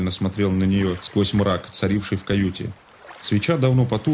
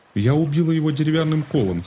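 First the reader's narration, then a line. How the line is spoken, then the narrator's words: Giggling girl. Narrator (Russian): хихикнула девушка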